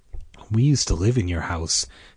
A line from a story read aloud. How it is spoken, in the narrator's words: Karen said softly